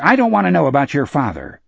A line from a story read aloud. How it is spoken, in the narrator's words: Henry said sharply